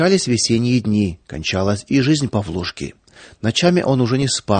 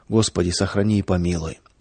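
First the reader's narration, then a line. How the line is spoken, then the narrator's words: Villagers whispering to themselves. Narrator (Russian): Деревенские, проходя мимо ее окон, шептали про себя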